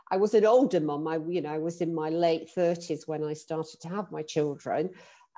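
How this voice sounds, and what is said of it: British London accent. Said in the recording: “You might be able to tell from my accent that I'm from the UK, uh, live in London.”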